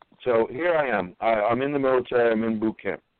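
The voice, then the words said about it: Strong Brooklyn accent. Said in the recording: “I'm from Brooklyn ... My accent is just outrageous. I try to curb it.”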